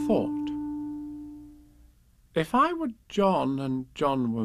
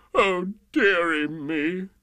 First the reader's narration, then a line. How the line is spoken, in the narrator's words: The King sobbed